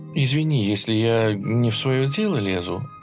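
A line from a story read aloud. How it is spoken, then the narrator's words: Timid. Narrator (Russian): робко начала она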